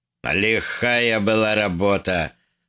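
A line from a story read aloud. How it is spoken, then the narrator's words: Grim. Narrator (Russian): сказал он, мрачно сверкнув своими свинцовыми глазами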